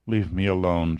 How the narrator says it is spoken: she muttered

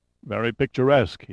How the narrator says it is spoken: said, yawning

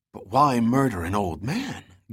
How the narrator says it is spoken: Gunn gasped

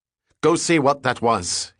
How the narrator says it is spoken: he barked

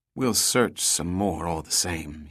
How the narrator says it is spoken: finally said in a low voice

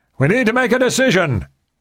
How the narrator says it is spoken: he shouted over the roar of the water

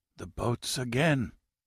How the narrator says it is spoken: he whispered

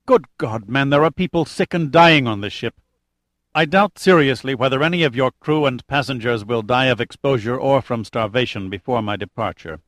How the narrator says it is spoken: said Amar curtly

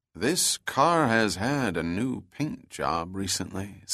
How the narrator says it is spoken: said Bell slowly

